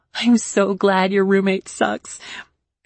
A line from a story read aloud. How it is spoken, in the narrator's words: she said between more fits of laughter